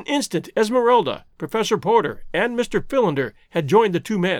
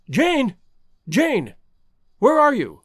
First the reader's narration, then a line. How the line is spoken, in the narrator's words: he cried